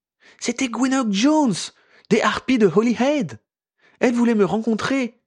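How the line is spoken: Awed voice. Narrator (French): lui apprit Ginny d'une voix émerveillée

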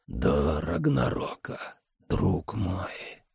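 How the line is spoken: Ancient man whispering. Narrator (Russian): прошептал древний капитан

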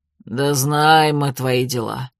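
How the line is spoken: Good-natured chuckle. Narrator (Russian): добродушно хмыкнул Щербатый Курц

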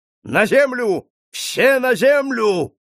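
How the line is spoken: Thunderous shout. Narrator (Russian): загадочный незнакомец громовым голосом закричал

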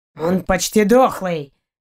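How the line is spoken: Barked. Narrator (Russian): рявкнул Заури

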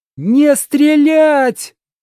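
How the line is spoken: Shouted. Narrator (Russian): Она вдруг закричала

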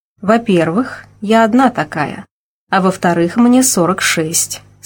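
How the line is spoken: Calm. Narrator (Russian): спокойно ответила я

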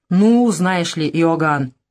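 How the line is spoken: Grumbling mutter. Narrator (Russian): пробурчал он

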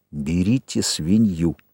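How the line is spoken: Whispering. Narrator (Russian): Джек сказал шепотом

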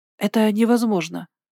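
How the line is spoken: Breathless, dizzy. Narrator (Russian): выдохнула я, чувствуя, как голова идет кругом

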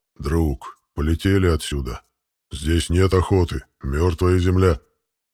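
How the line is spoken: Pet creature's grumble. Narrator (Russian): Питомец проворчал

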